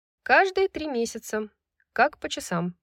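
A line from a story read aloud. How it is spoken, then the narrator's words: Grumbled. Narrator (Russian): проворчала Брайс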